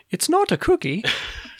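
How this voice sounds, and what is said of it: Imitating a Fig Newton commercial voice. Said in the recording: “was that supposed to be an Australian accent? ... No, it's the commercials for Fig Newtons”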